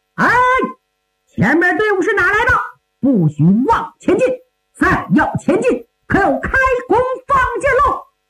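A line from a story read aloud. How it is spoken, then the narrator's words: Loud shout. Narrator (Chinese): 突然右边树林中有人高喊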